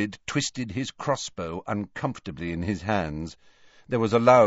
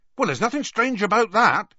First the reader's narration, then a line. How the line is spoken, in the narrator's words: Hagrid added hastily